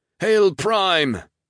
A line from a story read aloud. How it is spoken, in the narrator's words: As one, roared the same two words